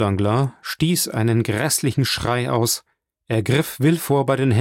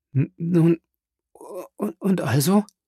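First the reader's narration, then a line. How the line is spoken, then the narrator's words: Stammering question. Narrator (German): fragte Herminie stammelnd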